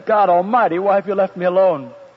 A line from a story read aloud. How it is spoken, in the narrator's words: I heard Jesus shout with a loud voice, and he said